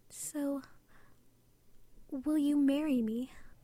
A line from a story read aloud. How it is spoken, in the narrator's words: Alice sighed happily, then asked him